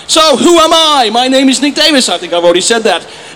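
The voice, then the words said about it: English accent. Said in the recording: “my terrible, terrible accent, I am English ... I'm not Australian, but I do get that a lot”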